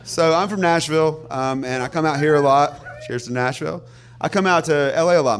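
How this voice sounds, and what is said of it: Southern American accent. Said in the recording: “a guy with a southern accent”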